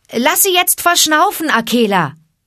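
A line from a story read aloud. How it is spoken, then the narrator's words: Calling out. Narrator (German): rief Mowgli dem Wolfe zu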